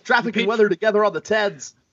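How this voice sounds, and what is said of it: Fake radio DJ voice. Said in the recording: “my fake DJ voice”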